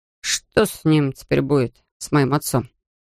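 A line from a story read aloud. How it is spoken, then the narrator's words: Quiet question. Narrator (Russian): Тихо спрашивает Томас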